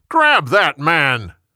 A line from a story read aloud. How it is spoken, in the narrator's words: Jeroboam yelled